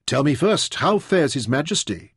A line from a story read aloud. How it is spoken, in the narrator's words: Taita demanded anxiously